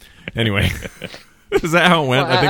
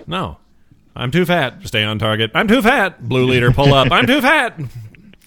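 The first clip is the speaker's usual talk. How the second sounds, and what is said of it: Imitates a movie character's voice. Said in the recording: “I was just doing my Porkins impression”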